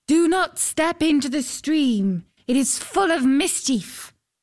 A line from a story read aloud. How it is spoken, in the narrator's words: a voice called out